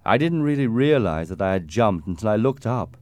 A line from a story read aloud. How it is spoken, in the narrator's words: Jim continued sadly